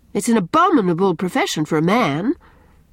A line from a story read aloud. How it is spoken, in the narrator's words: cried Anne rather sharply, afraid that Gilbert might blunder on the truth if he kept on in this strain